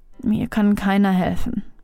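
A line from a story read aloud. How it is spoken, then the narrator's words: Quiet murmur. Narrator (German): murmelte leise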